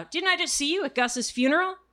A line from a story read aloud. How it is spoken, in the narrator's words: he called out